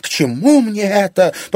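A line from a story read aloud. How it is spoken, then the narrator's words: Moaning. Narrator (Russian): простонала Анфиса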